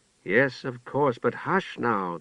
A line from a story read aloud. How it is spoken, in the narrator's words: the mother murmured